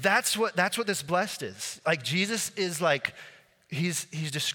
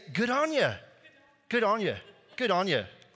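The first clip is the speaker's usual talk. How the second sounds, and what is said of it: Put-on Australian accent. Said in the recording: “I was gonna do an Australian accent, and I'll still try it”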